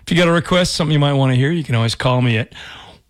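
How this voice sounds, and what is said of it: Hoarse, rough voice. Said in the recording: “my voice is shot... I'm just getting over a cold... I got a little bit of a, I don't know, frog in my throat”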